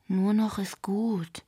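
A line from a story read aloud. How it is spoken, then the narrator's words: Sighing. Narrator (German): seufzte Yuki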